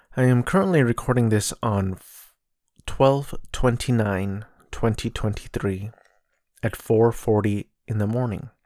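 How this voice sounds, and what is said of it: Cracking early-morning voice. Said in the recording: “My voice is already cracking.”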